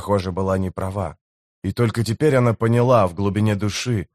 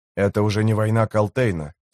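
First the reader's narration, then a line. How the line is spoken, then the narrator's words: Plain. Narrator (Russian): сказала она Тимулу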